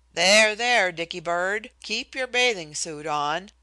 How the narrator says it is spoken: he admonished roughly

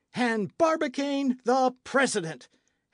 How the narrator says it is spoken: howled Michel

